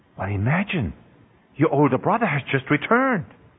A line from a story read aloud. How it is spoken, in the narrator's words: the father tenderly told his son